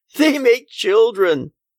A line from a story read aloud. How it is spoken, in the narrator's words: the woman added with a laugh